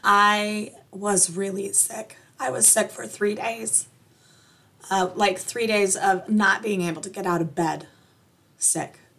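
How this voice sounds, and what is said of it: Slightly scratchy voice. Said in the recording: “I'm sure you can hear in my voice, there is some scratchiness.”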